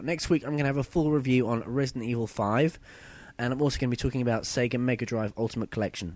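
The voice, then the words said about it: Husky voice. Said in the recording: “I've got a bit of a sore throat. ... I'm a bit husky today.”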